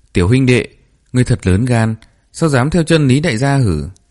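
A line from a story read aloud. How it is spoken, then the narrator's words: Deep booming question. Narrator (Vietnamese): gã cao lớn họ Lý cất giọng ồm ồm hỏi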